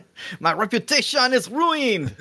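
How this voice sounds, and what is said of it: Outrageous put-on accent. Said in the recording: “With this outrageous accent.”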